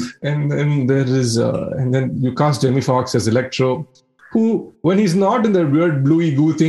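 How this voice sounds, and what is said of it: Usual voice. Nothing is said of it.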